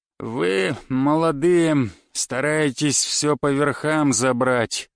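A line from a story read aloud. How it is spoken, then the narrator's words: Toothless mumble. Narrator (Russian): стал шамкать Минин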